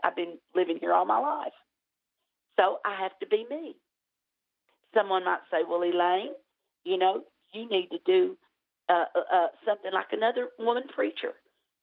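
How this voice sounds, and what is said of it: Southern US accent, Tennessee/Alabama. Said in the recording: “I may sound like I'm from Tennessee, Alabama area, and I am. But I can't change my accent.”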